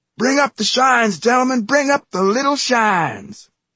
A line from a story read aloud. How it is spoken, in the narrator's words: the school superintendent yell